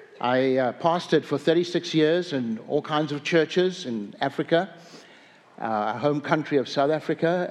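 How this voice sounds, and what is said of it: South African English accent. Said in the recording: “I have an accent, apparently ... Apparently, I've not lost my accent.”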